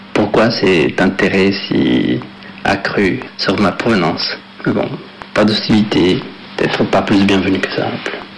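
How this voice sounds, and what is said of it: Latin American accent in French. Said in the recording (French): “à chaque fois que je rentre au Mexique ... d'où je viens et d'où je sors cet accent”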